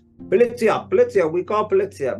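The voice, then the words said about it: Put-on Italian accent. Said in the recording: “That's me Italian accent”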